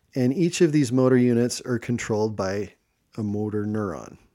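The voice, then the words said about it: Midwest accent on 'motor neuron'. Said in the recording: “you said that with a Midwest accent there, a motor neuron.”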